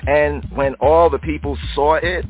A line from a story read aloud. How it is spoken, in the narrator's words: they shouted